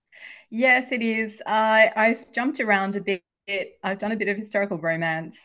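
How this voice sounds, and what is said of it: Australian accent. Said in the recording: “I've published in Australia. You can probably tell from my accent, that's where I'm from.”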